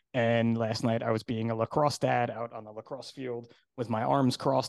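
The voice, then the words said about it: Hoarse voice. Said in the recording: “my voice is a little hoarse sounding today... my voice is like crazy hoarse today”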